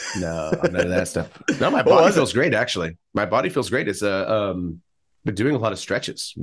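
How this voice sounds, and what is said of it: Sick-sounding voice. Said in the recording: “I was sick last week. I apologize. Can't you tell by my voice? ... I can tell.”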